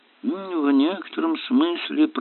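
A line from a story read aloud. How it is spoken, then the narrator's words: Muttered under breath. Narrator (Russian): пробормотал он себе под нос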